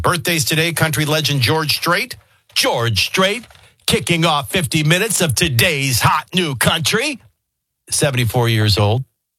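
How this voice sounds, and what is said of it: Country radio announcer voice, syllable-stressed. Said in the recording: “you go into your country radio voice ... Country radio voices are always in syllables.”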